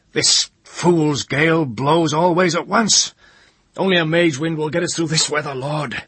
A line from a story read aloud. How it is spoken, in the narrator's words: the ship's master roared out ragefully